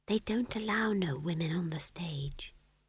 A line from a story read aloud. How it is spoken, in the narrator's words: said Magrat in a small voice